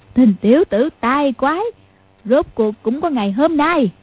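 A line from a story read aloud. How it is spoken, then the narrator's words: Cackling gloat. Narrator (Vietnamese): Mụ cười phá lên ha hả, nói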